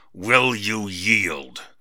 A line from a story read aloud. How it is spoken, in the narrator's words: grunted Var